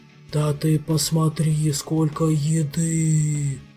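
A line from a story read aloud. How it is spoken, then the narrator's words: Glutton's blissful purr. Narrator (Russian): Все тем же блаженным голосом проурчал обжора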